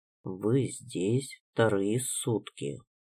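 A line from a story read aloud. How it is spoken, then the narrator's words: Quiet, flat. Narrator (Russian): ответил тихо и безэмоционально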